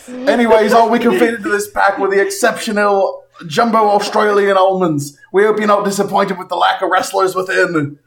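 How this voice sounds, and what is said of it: Put-on Australian accent. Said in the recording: “my accent. ... It makes way more sense now when you hear it in Australia.”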